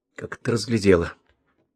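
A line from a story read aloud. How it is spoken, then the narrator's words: Mumbled. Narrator (Russian): пробормотал Полянский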